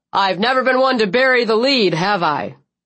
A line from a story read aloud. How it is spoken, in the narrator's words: President Gray laughed